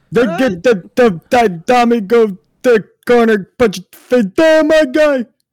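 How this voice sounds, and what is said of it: Imitates another person's voice. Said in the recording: “pretty good impression ... That is pretty good.”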